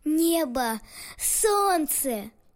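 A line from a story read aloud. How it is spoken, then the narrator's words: Loud joyful boy. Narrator (Russian): мальчик громко, радостно произнес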